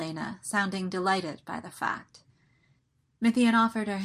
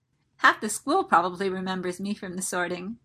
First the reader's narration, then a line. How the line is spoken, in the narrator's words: Elena said cheerfully